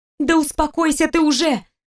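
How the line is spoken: Shout. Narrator (Russian): закричала она

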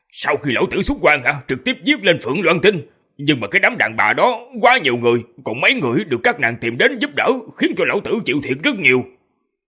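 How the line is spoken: Bitter, resentful. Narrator (Vietnamese): Tư Đồ Nam nói đến chỗ tức giận, hận nói

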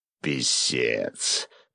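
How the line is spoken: Hoarse, forced out after pause. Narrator (Russian): После паузы охрипшим голосом выдавил босс

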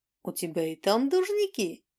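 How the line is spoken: Cheerful snort. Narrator (Russian): весело фыркнула Мьюза

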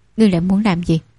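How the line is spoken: Cold. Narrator (Vietnamese): hắn lạnh lùng nói

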